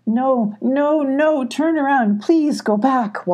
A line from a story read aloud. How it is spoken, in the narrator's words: Wallow pleaded